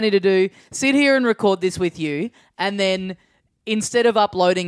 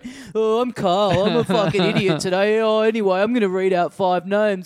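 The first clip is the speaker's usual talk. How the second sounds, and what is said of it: Imitates another person's voice. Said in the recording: “Is that an impression of me?”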